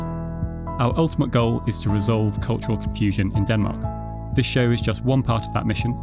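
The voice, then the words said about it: British accent. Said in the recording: “as you can probably tell from my accents, I'm originally from the UK”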